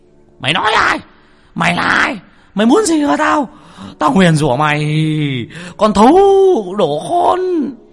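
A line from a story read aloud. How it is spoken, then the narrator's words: Frantic howling cry. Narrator (Vietnamese): Lão rú lên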